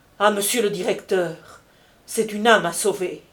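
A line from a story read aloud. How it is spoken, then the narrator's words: Exclaimed. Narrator (French): s'écria Jacques Collin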